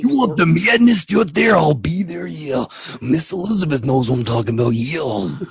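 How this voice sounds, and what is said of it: Macho Man Randy Savage impression. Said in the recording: “do a Macho Man Randy Savage impersonation ... That's a good macho.”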